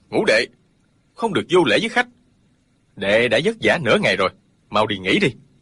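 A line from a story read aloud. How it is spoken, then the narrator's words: Sharp rebuke. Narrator (Vietnamese): Tống Diễn Kiều quát lên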